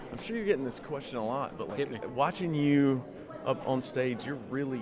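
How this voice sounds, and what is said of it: Southern American accent. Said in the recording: “Nice to hear a southern accent.”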